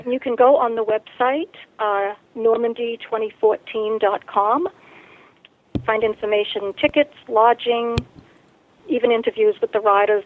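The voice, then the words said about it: Speaks with a noticeable accent. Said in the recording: “you might want to spell that because of my accent.”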